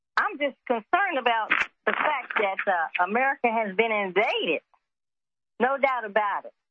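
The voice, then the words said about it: Alabama accent. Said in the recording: “that's a nice accent you have ... I like that Alabama accent.”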